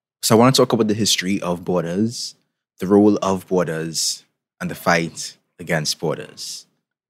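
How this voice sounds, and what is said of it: Trinidadian Caribbean accent. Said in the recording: “in case you couldn't tell by my accent, I'm from the Caribbean, particularly from Trinidad and Tobago”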